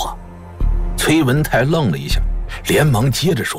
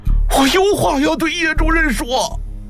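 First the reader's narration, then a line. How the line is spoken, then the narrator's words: Terrified hoarse screaming. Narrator (Chinese): 崔文泰吓得腿都软了，声嘶力竭地喊道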